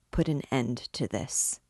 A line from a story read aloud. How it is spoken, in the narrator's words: said in a low voice